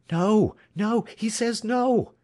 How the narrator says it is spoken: cried Alex

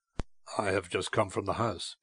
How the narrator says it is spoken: he said gravely

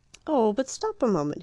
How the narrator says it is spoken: cried

